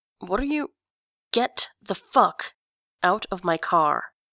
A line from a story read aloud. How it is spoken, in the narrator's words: says Grantaire through gritted teeth